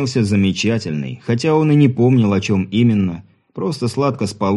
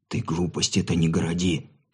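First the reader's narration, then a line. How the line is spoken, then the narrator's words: Whispered. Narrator (Russian): шепотом произнес Сергей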